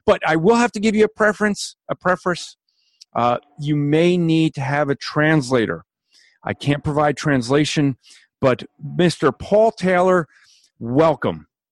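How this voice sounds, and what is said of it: Thick New Jersey accent. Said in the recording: “your thick New Jersey accent”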